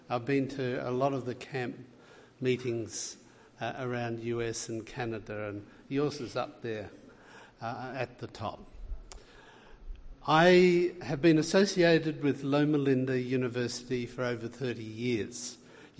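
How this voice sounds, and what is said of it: Australian accent. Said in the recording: “You can tell by my accent I'm from way down under in Australia”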